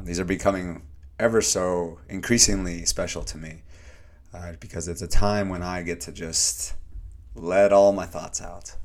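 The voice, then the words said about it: Slightly hoarse voice. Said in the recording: “a little hoarse”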